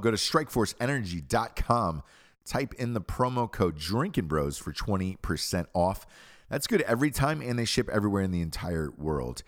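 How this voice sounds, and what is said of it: Sick, under-the-weather voice. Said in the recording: “my voice is like this, a little under the weather ... got a little sick ... I usually don't have the typical magic in my voice”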